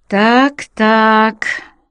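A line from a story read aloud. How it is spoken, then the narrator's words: Mocking nod. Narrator (Russian): насмешливо кивнула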